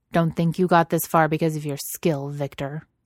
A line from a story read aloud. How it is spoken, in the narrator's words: he says harshly